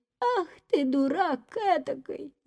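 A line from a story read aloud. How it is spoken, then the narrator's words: Old woman shouting. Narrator (Russian): закричала на него старуха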